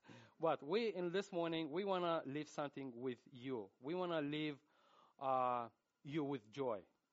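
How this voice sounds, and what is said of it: Russian accent in English. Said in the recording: “we're going to preach in English with a Russian accent”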